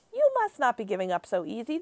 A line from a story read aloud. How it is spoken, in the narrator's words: the BFG said calmly